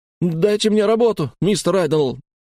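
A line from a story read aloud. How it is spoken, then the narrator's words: Wailing. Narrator (Russian): взвыл я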